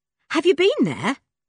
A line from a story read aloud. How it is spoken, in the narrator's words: asked Dick eagerly